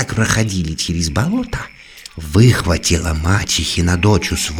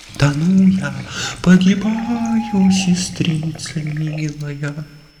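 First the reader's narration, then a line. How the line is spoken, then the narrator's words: Pleading. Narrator (Russian): взмолилась девица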